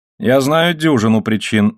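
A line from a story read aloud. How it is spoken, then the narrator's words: Plain. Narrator (Russian): ответил он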